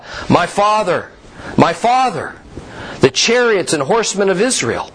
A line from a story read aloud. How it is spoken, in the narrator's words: Elisha saw it, and he cried out